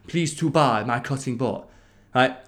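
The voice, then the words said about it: Mock Asian accent. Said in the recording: “if I say that with a mock Asian accent”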